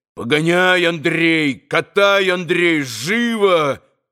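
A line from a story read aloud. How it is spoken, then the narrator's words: Shout. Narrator (Russian): закричал он в выступлении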